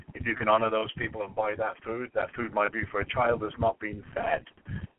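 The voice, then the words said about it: Non-American accent. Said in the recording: “you're not from America, obviously, by your accent”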